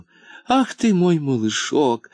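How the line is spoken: Tender repeating. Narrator (Russian): ласково повторяла она

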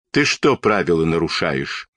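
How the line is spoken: Stern policeman's question. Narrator (Russian): строго спросил милиционер

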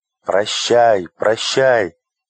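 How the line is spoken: Two voices shouting. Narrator (Russian): закричали принц и принцесса

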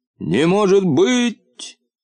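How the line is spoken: Hoarse, faint shout. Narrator (Russian): закричал он в ответ, но таким хриплым голосом, что полботинка его не услышал

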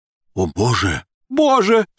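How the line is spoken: Sudden exclamation, foreigner. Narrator (Russian): Вдруг иностранец воскликнул

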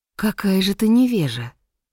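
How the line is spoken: Sorceress speaking calmly. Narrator (Russian): спокойно сказала волшебница

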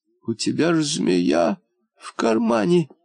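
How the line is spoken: Stammering, forced out. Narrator (Russian): заикаясь, выдавила

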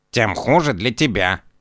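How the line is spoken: Grumbling. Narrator (Russian): проворчал кот

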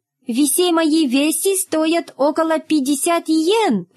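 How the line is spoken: Squeaky voice. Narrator (Russian): пропищал японец

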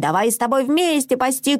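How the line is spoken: Shouting. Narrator (Russian): кричала Мона Мацу

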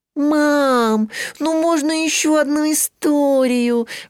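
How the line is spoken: Pleading. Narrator (Russian): взмолилась Мари

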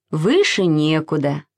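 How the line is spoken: Plain. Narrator (Russian): сказала мама

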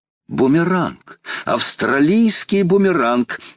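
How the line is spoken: Exclaiming. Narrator (Russian): воскликнул Паганель

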